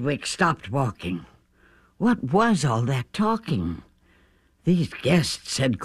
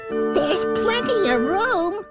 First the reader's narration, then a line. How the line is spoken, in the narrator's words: laughed the bug